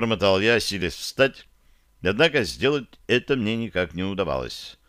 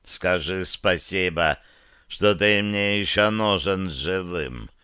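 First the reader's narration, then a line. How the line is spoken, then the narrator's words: Drawling, disdainful interest. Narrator (Russian): протянул Широн с брезгливым интересом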